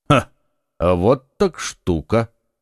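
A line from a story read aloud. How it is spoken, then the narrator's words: Calm. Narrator (Russian): как всегда спокойно проговорил Атос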